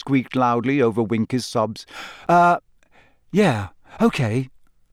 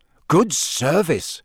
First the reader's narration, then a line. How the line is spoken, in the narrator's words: Ron said, in an impressed voice